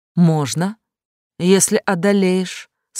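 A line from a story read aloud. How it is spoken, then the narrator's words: Calm woman's reply. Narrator (Russian): спокойно ответила женщина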